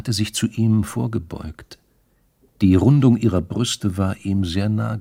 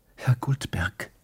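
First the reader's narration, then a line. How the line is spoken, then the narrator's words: Whispered. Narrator (German): hatte sie geflüstert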